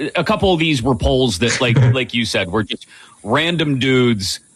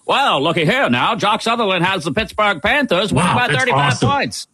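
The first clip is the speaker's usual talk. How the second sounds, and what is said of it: Old-timey radio announcer voice. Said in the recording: “Do the rest of the show in that voice. ... Old timey radio voice. ... Nailed it.”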